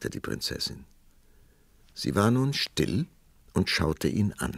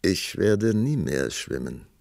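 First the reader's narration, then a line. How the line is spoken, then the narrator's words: Calm answer. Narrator (German): antwortete der Prinz ruhig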